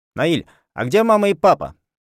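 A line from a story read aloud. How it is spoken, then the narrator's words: Full voice. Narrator (Russian): спросила Дилька полным голосом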